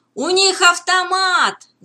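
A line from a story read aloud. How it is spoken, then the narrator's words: Shouting. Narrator (Russian): закричал Беннет, прыгая за борт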